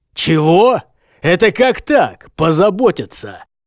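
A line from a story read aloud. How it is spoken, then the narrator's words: Sudden loud bark. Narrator (Russian): Громко рявкнул вдруг следопыт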